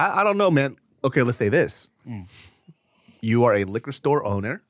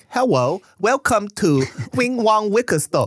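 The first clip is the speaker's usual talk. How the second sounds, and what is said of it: Put-on thick Asian accent. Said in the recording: “a thick Asian accent ... That's the accent you have to do.”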